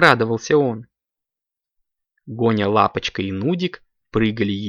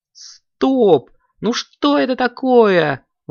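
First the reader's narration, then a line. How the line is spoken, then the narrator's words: Exclaimed. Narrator (Russian): воскликнул Коржик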